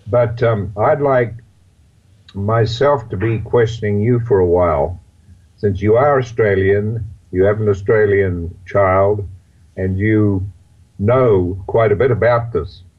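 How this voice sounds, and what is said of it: Hoarse voice. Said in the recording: “a bit of a hoarse voice”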